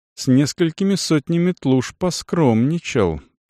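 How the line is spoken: Mutter. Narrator (Russian): пробормотал рекер

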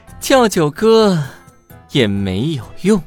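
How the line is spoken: Hearty laugh. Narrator (Chinese): 九羽哈哈一笑

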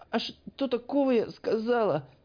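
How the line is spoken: Squeaked. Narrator (Russian): пискнула она

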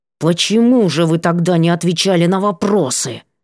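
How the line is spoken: Hiss. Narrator (Russian): зашипела

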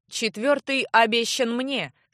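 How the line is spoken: Stern announcement. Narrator (Russian): строго сообщил подтянутый как офицер Одерс

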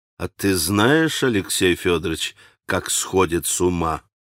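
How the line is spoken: Quiet, calm, simply curious. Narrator (Russian): спросил Иван совсем вдруг тихим, совсем уже нераздражительным голосом, в котором внезапно послышалось самое простодушное любопытство

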